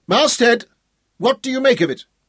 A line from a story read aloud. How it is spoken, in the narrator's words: Hal shouted through the hailing trumpet